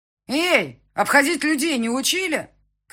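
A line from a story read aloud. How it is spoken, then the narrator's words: Indignant shout. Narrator (Russian): крикнула ему возмущенная Яна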